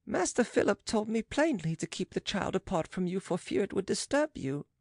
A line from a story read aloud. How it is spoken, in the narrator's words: said the servant softly